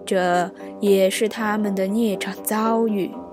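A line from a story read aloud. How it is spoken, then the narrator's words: Sighing. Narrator (Chinese): 雨村听了，一叹道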